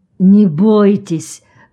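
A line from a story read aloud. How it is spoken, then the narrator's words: Hoarse rasp. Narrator (Russian): прохрипел Джон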